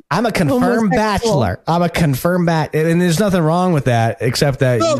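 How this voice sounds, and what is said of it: Imitates another person's voice. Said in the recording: “better than your Trump impression ... I'll just stick to Lindsey Graham from now on”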